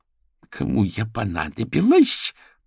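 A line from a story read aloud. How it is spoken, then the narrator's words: Growling fox. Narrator (Russian): прорычала лиса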